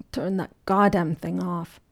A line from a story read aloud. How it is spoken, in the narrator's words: Henry groaned from his sprawl on a leather couch